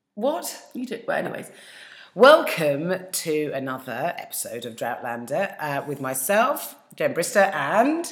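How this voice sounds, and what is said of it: Hoarse, failing voice. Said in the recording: “sorry, my voice is going. ... Well, you sound quite sexy.”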